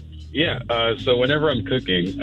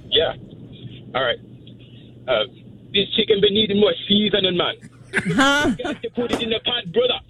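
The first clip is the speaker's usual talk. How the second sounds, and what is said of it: Put-on Jamaican accent. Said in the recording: “I have to do like a Jamaican accent, like I'm on a cooking show.”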